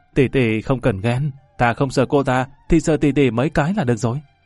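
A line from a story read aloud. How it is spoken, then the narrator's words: Gleeful. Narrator (Vietnamese): Lâm Văn Vinh hớn hở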